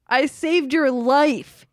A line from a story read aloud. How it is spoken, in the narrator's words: he yelled angrily